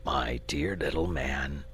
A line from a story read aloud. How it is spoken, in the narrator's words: said the dragon solemnly